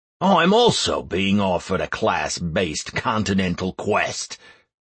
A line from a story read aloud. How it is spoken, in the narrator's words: the rogue growled